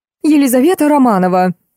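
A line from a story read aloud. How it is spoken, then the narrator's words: Teacher shrieking. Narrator (Russian): завизжала училка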